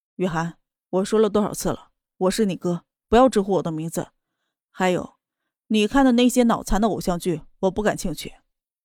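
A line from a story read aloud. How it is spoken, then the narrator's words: Flat, indifferent. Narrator (Chinese): 淡淡的说道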